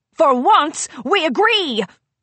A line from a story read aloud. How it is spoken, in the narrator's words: Grand Pear shouted